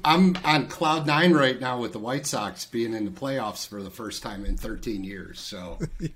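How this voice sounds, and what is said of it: Thick Chicago accent. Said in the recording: “I hear some accent... You got a little bit of Chicago vibe on you... I definitely have a very thick Chicago accent”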